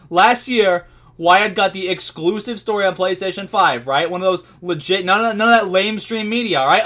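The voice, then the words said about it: Imitates another person's voice. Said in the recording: “my impression is turning into fucking Bernie”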